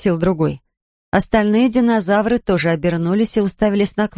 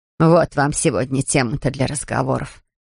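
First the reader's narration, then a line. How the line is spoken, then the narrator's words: Snorted. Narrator (Russian): фыркнула Надин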